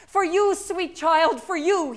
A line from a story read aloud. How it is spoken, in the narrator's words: he called out